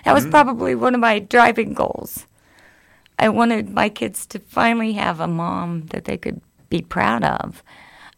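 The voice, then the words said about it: Emotional, choked-up voice. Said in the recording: “I'm sorry, I get emotional.”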